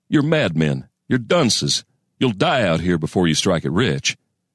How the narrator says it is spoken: he'd have chuckled bitterly

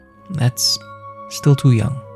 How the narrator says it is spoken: His voice cracks a little as he adds

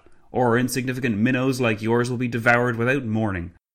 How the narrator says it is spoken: Clavel spat

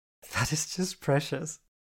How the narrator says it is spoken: chuckled

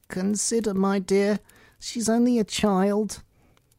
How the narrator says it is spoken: The king timidly said

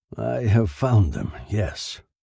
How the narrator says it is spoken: said hoarsely

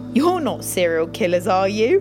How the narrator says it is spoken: He laughed

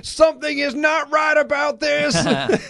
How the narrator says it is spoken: JBL shouts

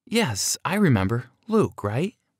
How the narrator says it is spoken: she replied

